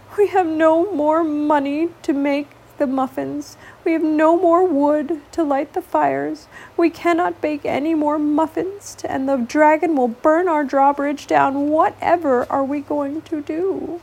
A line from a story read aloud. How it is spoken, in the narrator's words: With a heavy heart and a tear in his eye, The baker sat sadly and cried